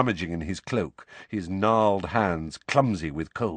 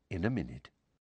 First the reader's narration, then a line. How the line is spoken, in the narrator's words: Lupin said quietly